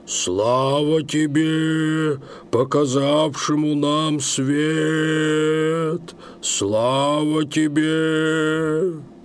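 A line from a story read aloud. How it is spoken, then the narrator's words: Chanted proclamation. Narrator (Russian): провозгласил Яков Иванович нараспев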